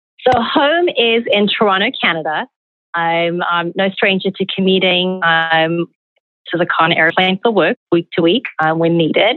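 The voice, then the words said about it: South African accent. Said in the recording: “I was wondering where your accent was from. So thank you for clarifying South Africa.”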